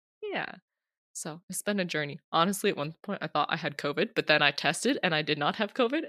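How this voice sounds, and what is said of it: Stuffy nose, congested voice. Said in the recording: “my voice is kind of weird or if I sound like I have a stuffy nose. I've had a cold all the last week”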